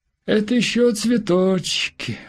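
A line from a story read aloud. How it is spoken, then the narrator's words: Dejected. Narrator (Russian): уныло сказала она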